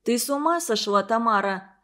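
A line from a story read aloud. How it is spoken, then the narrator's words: Mother grumbling. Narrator (Russian): заворчала мать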